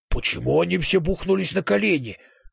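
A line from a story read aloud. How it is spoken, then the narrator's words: Whisper. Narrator (Russian): шепнул мне профессор Стего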